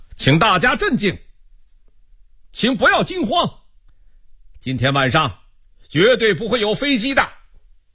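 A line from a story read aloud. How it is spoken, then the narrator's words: Sudden loud call. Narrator (Chinese): 沉默半天的陶春兵突然向大家叫道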